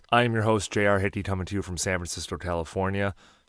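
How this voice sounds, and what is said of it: Tired, worn-out voice. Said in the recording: “I'm dragging ass ... If you can tell by my voice, if you can tell by some of the ad reads, I'm a little banged up.”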